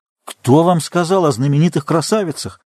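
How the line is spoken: Indignant exclamation. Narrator (Russian): воскликнул почти негодующий Дояром

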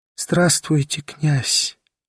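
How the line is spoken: Whisper. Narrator (Russian): прошептала

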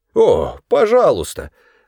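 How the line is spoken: Musical exclamation, father. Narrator (Russian): воскликнул отец, словно на скрипке играл он

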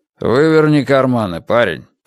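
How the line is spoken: Grumbling. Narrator (Russian): проворчал сержант

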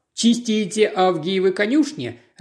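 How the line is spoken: Laughing. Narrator (Russian): рассмеялся Дэшвуд

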